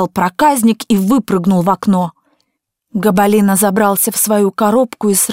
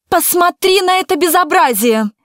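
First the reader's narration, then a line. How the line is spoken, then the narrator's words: Woman shouting. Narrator (Russian): закричала женщина мужу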